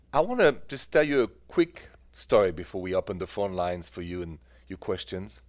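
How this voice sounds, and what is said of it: French accent, Parisian. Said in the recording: “The accent, still French, from Paris.”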